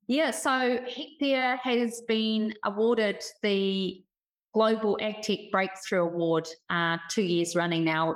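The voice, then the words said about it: New Zealand accent. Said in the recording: “the Kiwi accent”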